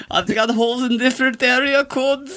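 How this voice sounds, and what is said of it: Imperfect put-on Norwegian accent. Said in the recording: “Not the right accent, but it'll do. ... I love that attempt at a Norwegian”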